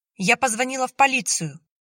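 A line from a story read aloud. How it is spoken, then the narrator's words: Shouted. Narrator (Russian): Выкрикнула Яна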